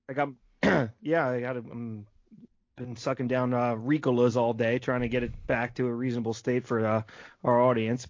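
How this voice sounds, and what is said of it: Hoarse voice. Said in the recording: “I hear it in your voice a little bit. ... you're a little hoarse. Are you a little hoarse?”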